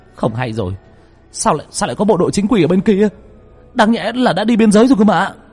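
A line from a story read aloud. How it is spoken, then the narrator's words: Sudden cry. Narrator (Vietnamese): Bỗng một thằng kêu lên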